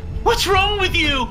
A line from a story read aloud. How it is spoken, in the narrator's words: He screamed